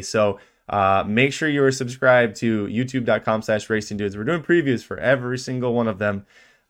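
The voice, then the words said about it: Rough, slightly grainy sick voice. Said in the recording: “my voice sounds rough ... I've been sick for 2 weeks ... my voice is a little off ... a little bit of more graininess to it”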